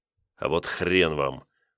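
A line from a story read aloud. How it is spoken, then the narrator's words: Through clenched teeth. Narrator (Russian): процедил он сквозь стиснутые зубы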